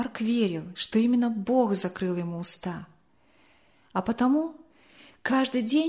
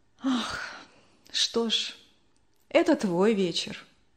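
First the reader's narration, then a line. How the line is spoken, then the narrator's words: Sighing. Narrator (Russian): вздохнула мама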